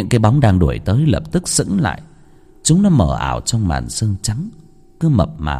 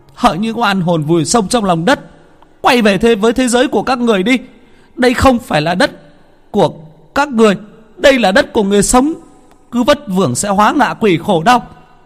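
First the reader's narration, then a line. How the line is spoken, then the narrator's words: Woman shouting. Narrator (Vietnamese): Bà hét lên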